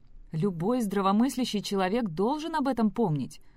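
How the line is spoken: Exclaimed. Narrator (Russian): воскликнул Тед

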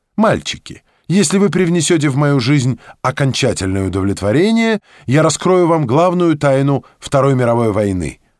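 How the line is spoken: Exclamation. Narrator (Russian): воскликнула Ева

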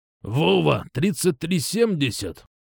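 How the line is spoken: Hoarse wheeze. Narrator (Russian): прохрипел Скампик

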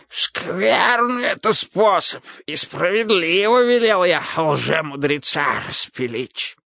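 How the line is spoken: Hoarse wheeze, ruler. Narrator (Russian): захрипел государь

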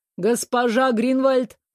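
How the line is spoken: Thunderous shout. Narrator (Russian): громовым голосом крикнул Вэл

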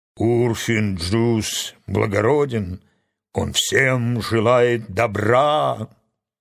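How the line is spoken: Low hoarse simple voice. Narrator (Russian): простодушный Карфакс добавил своим низким хриплым голосом

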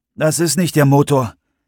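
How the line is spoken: Called back. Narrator (German): rief Kyle zurück

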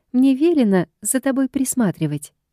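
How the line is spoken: Giggling reply. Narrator (Russian): хихикнув, отвечает она

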